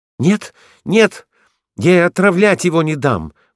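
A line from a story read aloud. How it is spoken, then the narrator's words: Schoolboy exclaiming. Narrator (Russian): воскликнул гимназист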